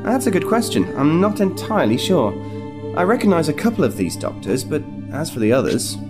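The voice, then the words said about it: American accent. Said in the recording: “I know I never had an American accent before.”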